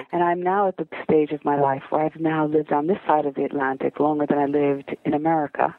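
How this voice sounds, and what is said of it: American accent. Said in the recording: “I've managed to retain my American accent”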